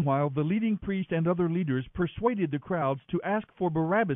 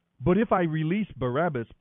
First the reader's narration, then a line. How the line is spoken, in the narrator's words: Pilate asked them